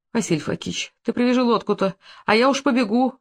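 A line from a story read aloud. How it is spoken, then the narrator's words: Pleading. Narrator (Russian): взмолился он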